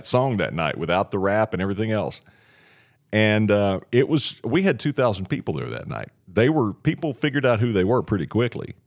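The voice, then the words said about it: Great radio voice. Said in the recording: “You have a great radio voice.”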